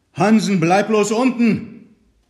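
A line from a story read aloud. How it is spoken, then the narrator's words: Shouting into cabin. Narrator (German): schrie er in die Kajüte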